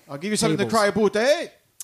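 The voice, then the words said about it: Put-on Canadian accent, sounds Peaky Blinders. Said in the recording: “what is that accent? ... I was trying to do the boot, eh? ... Oh, Canadian. ... Yeah, Toronto. ... that didn't sound like Toronto. ... It sounded like you were doing a Peaky Blinders type thing. ... Your Peaky Blinders and your Canadian were very similar.”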